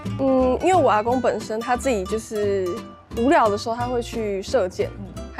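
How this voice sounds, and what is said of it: Taiwanese Indigenous accent. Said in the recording (Chinese): “这个口音很原住民”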